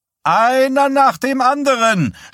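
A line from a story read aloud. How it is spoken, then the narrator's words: Shouting. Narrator (German): schrie Wysack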